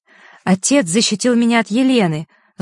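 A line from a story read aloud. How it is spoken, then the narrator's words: Snapped angrily. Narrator (Russian): зло бросила ему Василиса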